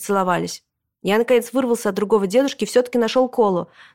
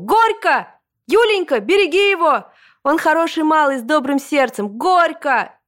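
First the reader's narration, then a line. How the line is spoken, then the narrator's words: Crowd shouting. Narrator (Russian): все тоже закричали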